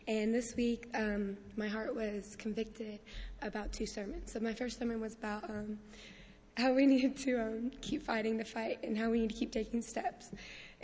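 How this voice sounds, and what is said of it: Voice worn out, hoarse. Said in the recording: “as you can tell from my voice, we did a lot of cheering this week”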